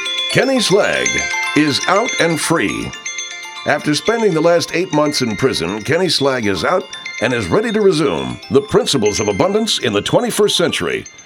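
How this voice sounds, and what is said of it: Sharp, crisp, over-modulated announcer voice. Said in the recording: “my voice is now sounding really sharp and crisp and is almost over fucking modulating”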